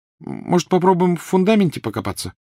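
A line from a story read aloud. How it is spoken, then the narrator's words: Hesitant suggestion. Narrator (Russian): неуверенно предложила Гермиона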